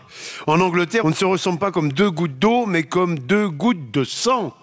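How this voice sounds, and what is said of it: Speaks with an accent. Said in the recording (French): “J'adore votre accent.”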